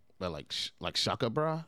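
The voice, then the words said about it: Put-on surfer accent. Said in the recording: “You got surfer.”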